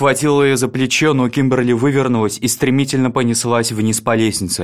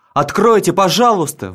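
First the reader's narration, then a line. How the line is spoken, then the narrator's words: Wailing. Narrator (Russian): вопила она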